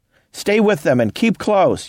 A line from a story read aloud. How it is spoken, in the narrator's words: Youngblood was shouting above him